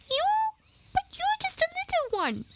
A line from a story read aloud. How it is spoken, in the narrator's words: he exclaimed